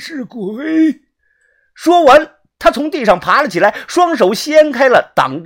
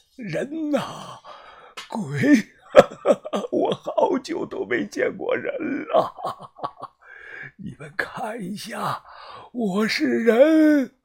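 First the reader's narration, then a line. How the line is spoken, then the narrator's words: Hoarse voice. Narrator (Chinese): 这道沙哑的声音啊，继续的响了起来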